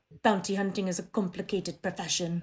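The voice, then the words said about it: Imitates another person's voice. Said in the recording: “good impression there. Nailed it.”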